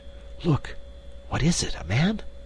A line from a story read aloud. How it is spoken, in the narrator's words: she whispered